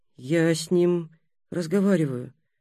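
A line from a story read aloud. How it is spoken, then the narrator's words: Quiet. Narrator (Russian): негромко сказал Будимир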